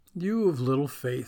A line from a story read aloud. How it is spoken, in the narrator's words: he said